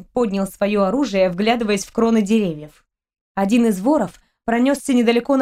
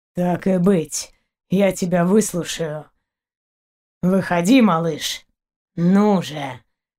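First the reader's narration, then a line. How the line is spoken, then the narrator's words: Hoarse wheezing. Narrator (Russian): хрипел дальше Заури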